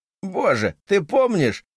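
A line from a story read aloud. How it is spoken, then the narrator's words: Laughing loudly. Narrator (Russian): захохотал Байрон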